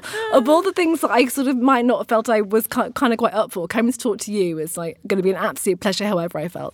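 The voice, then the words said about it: Hoarse, husky voice. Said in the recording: “Apologies for sounding a little bit hoarse and husky today, not feeling absolute top of the world”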